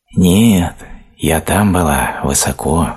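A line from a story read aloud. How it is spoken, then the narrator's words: Sighing. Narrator (Russian): вздохнула шишка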